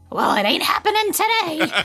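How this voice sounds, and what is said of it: Excellent cartoon mom character voice. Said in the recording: “that's an excellent Marge impersonation... that was really well good. Done.”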